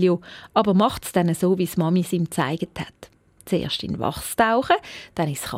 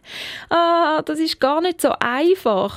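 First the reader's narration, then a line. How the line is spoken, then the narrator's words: Groaning. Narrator (German): stöhnt Nelio, wo er plötzlich ein ganzes wachsiges Lümpli bekommen hat, weil er die Reihenfolge vertäuscht hat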